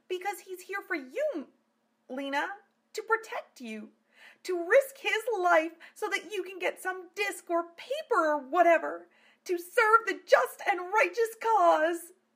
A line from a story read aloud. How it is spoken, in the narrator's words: Amelia cried